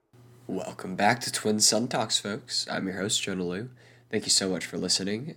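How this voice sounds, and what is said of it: Congested, tired, strained losing voice. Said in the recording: “If you couldn't tell by my voice, I have very bad allergies ... I am tired, and I am losing my voice currently”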